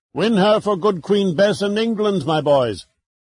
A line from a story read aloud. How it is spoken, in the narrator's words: As the ships crushed together and their beams and planking groaned in protest, Drake roared out